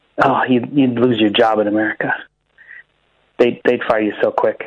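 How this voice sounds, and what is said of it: Usual voice. Nothing is said of it.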